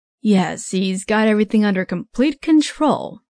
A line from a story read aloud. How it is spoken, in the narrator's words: the father said sarcastically